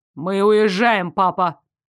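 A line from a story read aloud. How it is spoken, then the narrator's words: Dry, curt. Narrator (Russian): сухо сказал Дарек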